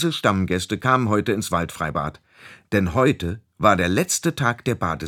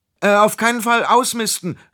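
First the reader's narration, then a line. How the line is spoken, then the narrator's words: Loud call. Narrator (German): rief er also laut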